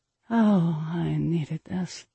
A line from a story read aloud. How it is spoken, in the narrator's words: I muttered softly into my hand between moans